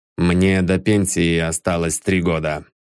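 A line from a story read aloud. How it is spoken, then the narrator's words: Dull muffled voice, man. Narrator (Russian): глухо проговорил он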